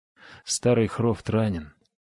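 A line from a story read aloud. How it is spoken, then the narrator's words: Weary speech. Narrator (Russian): устало произнес Хаген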